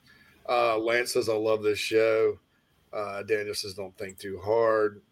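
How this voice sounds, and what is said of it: Hoarse, strained voice. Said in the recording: “coughing, coughing, lost my voice”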